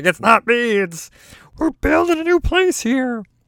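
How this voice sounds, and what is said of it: Muppet-like comedic character voice. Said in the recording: “every time I do a voice, why is it sounding like the Muppets? ... That is in no way a representation of the way anybody speaks that I know”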